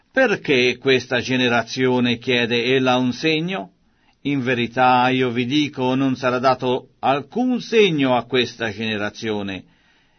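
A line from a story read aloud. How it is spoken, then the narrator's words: Weary sighing speech. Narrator (Italian): egli, dopo aver sospirato nel suo spirito, disse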